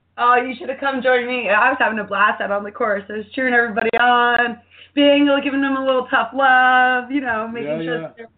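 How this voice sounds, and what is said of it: Slightly hoarse voice. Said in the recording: “My voice is still a little bit hoarse”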